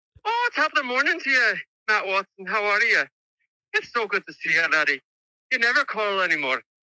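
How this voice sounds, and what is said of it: Put-on Scottish or Irish accent. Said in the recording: “give us your best British accent ... I'm pretty sure that's Scottish ... or Irish”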